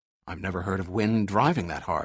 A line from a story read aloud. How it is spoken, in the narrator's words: muttered Barrett in awe